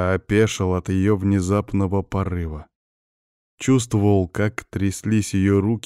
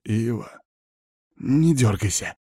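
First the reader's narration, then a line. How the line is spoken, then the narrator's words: Wildcat hiss. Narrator (Russian): прошипела она дикой кошкой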